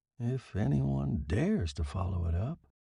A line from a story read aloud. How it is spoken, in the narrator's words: He added in a whisper